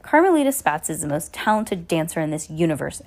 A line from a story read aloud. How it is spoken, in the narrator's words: Esme growled